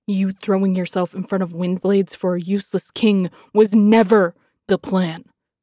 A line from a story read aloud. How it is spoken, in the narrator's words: roared